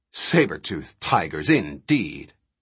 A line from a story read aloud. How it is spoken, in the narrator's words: His derisive snort